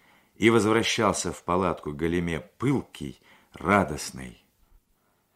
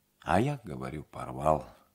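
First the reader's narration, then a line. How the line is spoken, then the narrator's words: Glum repetition. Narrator (Russian): уныло повторил Кононыкин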